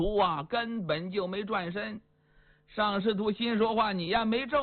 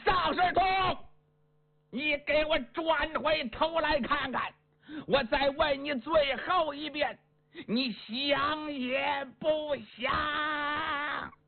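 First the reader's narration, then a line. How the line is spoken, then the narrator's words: Shouting. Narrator (Chinese): 邱瑞…只能大声喊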